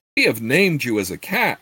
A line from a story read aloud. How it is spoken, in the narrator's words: Eflam exclaimed